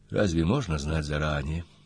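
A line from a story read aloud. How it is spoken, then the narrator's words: Quiet. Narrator (Russian): тихо сказала Настя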